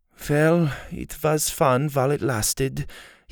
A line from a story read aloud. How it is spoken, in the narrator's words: he sighed